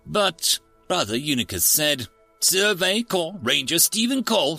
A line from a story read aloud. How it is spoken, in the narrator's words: she snapped